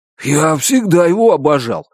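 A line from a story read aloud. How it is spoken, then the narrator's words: Exclaiming. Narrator (Russian): воскликнул он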